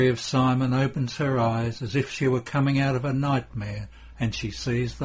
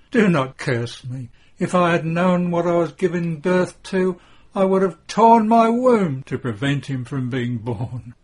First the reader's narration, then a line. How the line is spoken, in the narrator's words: covers her face with her trembling hands and moans